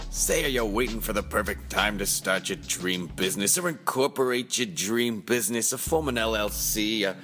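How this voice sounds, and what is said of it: Silly put-on voice. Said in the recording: “stupid voice”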